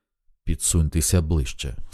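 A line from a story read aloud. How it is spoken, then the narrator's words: Almost hoarse. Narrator (Ukrainian): сказала майже хрипко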